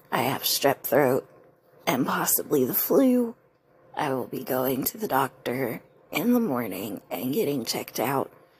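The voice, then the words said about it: Sick, impaired voice. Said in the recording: “You can obviously tell that my voice is not up to par”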